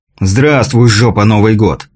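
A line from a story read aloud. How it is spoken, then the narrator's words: Exasperated exhale. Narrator (Russian): в сердцах выдохнул Михаил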